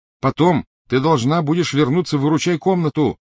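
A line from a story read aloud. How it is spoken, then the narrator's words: Calling after someone. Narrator (Russian): крикнул он ей вслед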